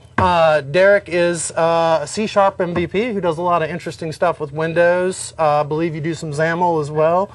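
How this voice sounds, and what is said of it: North Carolina Southern accent. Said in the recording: “North Carolina, my old home state, if you haven't picked up on the accent yet”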